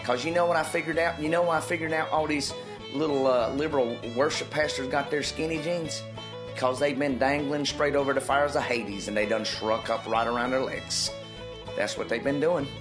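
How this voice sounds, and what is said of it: Southern Appalachian preacher voice. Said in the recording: “South Alabama ... Kentucky. ... Preacher voice. ... Appalachian.”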